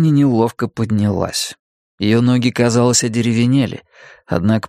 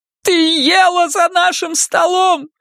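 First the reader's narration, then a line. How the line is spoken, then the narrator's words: Sudden shout. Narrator (Russian): неожиданно крикнула Карла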